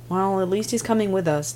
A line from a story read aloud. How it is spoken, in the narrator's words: Tim sighed